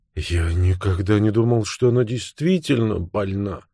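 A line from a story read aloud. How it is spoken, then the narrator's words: Mumbling. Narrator (Russian): бормотал он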